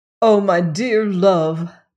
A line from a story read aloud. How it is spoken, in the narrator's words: cried Crane